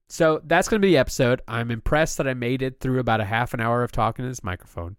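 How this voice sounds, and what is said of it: Congested, slightly higher, subdued voice. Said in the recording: “I can't breathe through my nose at all right now, hence why my voice is a little bit higher and I sound a little more subdued than usual ... I'm trying to muscle through being sick.”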